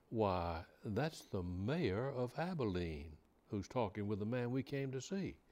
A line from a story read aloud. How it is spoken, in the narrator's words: exclaimed